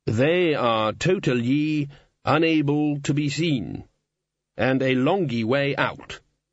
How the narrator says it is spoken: said Lord Vetinari solemnly

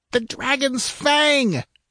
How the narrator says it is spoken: shrieked Xerathus

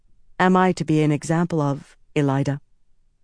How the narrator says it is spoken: Egwene said evenly

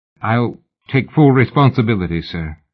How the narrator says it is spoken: he stammered

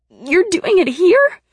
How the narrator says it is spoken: I cried

